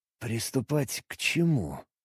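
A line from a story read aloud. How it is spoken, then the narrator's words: Strained through pain. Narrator (Russian): Выдавил я сквозь пульсирующую боль в голове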